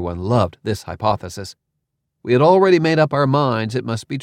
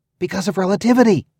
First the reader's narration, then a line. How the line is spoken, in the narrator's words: Barb exclaimed